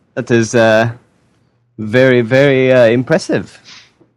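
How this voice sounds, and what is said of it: Put-on French accent. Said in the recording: “you are Belgian?... No, miss, I am French... Excuse the accent, English is not my native language.”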